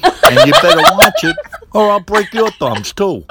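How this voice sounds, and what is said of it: Brooklyn accent, Rocky impression. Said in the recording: “Dad's from Brooklyn, we should do a little bit from Rocky ... our dad's funny accent that he doesn't think he has, but he does have from Brooklyn”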